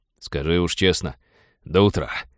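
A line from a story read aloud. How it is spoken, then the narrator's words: Snorting. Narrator (Russian): фыркнул Винни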